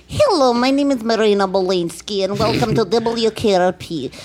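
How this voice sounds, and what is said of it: Put-on Russian accent, monotone woman's voice. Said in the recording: “A little Russian ... The reason I talk like in very monotone voice ... that's not the Russian accent, that's the communist accent”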